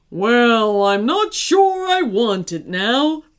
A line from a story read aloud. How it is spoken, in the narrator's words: moaned the giant